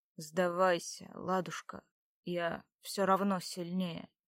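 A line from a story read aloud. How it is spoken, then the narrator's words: Quiet. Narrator (Russian): добавил он тихо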